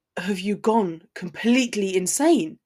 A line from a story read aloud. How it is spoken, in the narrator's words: he spat incredulously